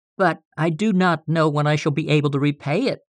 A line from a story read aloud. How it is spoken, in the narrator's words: faltered